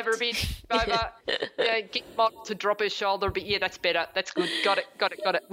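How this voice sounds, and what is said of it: Put-on Australian accent. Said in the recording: “With an Australian accent”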